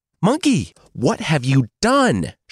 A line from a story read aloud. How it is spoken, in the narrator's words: Xuanzang spat